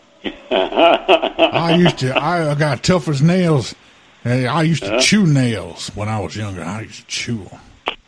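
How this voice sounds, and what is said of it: Heavy Texas accent. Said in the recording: “you are from Texas ... you can tell I got one of them heavy accents”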